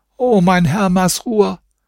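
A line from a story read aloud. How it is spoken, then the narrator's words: Old woman calling. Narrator (German): rief die Alte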